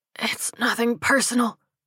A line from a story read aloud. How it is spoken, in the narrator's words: he wheezed